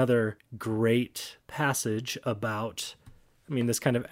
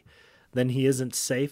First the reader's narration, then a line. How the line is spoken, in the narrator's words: said Lucy